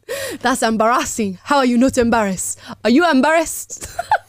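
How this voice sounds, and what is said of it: Put-on Nigerian accent. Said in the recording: “Got to bring out my Nigerian accent for that”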